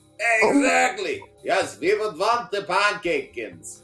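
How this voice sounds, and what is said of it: Put-on German accent. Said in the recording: “It's my German accent. It's just as good as the English.”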